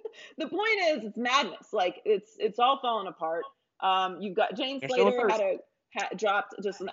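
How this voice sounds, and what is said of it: Usual voice. Nothing is said of it.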